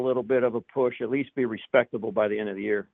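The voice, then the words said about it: New York accent. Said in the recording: “kind of picked up a little bit of a, a new uh, a New York accent.”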